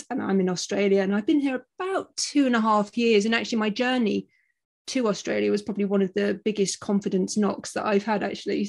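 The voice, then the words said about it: British accent. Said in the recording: “I'm a Brit, as you probably gather from my accent”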